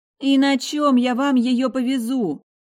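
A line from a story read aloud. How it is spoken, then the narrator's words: Almost wailing. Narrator (Russian): Уже чуть ли не взвыла Лада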